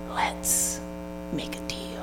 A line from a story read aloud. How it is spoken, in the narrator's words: God whispering in her ear